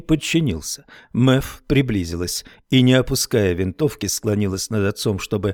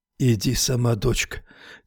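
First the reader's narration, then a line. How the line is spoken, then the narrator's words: Quiet. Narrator (Russian): тихо сказал Хармон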